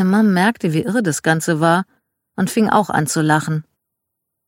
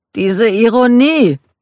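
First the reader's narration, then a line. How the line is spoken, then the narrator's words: Calling out. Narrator (German): rief Michael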